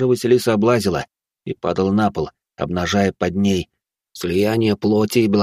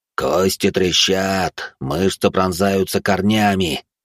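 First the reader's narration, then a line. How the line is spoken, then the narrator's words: Growling monster, relishing. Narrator (Russian): наслаждалось рычащее чудище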